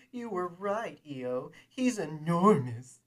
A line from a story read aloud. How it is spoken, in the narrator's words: exclaimed